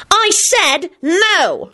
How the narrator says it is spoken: shrieked Solange

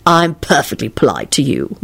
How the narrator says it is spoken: Lupin replied coldly

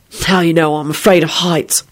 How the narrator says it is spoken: William muttered

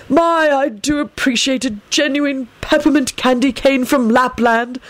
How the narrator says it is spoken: Albus commented with a satisfied sigh

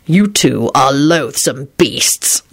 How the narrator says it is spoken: Lupin replied fiercely

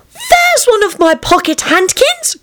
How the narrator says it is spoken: cried Lucy

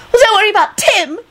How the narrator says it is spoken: Esther screamed

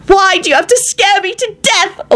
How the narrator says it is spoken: Elizabeth shrieked

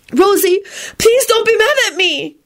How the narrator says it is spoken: Cho sobbed

